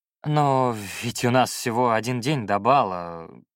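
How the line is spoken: Drawling. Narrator (Russian): протянул я

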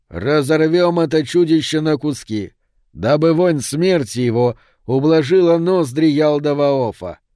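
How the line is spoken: Herald's shout. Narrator (Russian): крикнул тогда провозвестник Маарт

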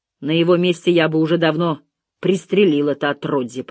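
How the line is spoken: Grumbled. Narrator (Russian): проворчал детектив

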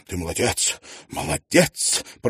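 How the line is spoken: Whisper. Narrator (Russian): прошептал Тидженс

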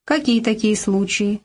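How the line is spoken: Plain. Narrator (Russian): спросили его

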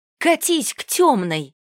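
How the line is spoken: Shout. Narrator (Russian): выкрикнула Арисия

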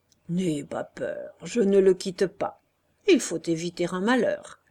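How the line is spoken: Conciliatory, delighted tone. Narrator (French): Beru, resté en arrière, dit d'un ton conciliant, enchanté d'être dans ses histoires

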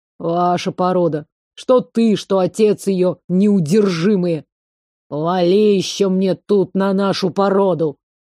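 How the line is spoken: Old man growling. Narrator (Russian): рыкнул дед Матвей

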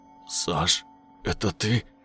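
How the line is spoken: Terrified strained words. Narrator (Russian): С ужасом выдавил я из себя

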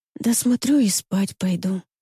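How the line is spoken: Sleepy whisper. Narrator (Russian): шепчу сонно

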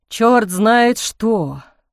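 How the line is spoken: Grumbling. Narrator (Russian): проворчал Кенезов

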